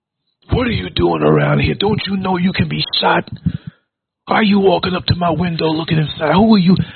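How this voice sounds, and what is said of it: Pro-wrestler style tough voice. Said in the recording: “put on my WWF voice”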